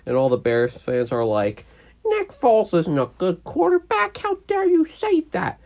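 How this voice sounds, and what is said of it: Annoying put-on voice. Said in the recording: “Why do you do that voice? ... I'm just doing an annoying voice”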